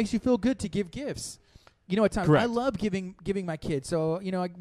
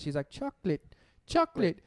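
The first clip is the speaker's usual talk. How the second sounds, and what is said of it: Childlike voice, slight British accent. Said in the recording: “Sounds like Peppa Pig with a little British accent”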